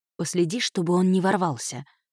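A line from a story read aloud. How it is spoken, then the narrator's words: Whisper. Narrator (Russian): шепнула ей Кайра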